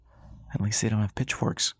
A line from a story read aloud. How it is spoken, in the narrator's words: Callie said under her breath